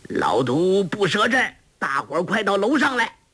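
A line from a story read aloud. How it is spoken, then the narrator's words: Loud shout. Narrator (Chinese): 洪七公高声叫道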